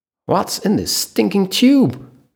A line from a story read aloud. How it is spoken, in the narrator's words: Mac shouted from inside